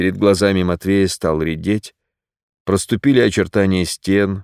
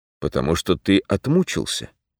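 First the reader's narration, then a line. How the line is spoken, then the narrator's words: Soft voice. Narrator (Russian): мягко прозвучало в ушах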